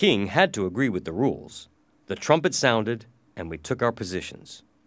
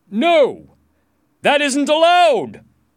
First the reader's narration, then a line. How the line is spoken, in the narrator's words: shouted Sir Sagramore